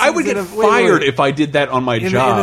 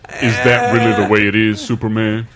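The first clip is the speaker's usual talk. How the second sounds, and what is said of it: Impression of Green Lantern John Stewart. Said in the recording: “Is that not a good Green John Stewart impression?”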